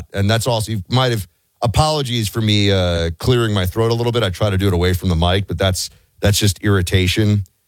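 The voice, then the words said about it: Hoarse, deeper than usual voice. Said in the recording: “why your voice seems to be like an octave deeper today ... It is hoarse. Because I was talking until late last night ... my voice is a little bit shot ... The back of my throat is scratched up”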